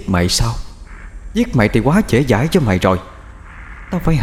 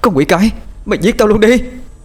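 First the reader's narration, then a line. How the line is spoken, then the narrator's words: Screaming. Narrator (Vietnamese): cổ họng thông thoáng, cô hét lên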